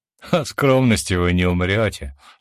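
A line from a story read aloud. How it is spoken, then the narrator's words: Laughing. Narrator (Russian): засмеялся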